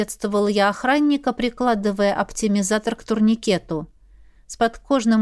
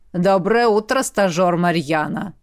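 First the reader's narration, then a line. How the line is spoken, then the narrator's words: Deep bass voice. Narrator (Russian): пробасил охранник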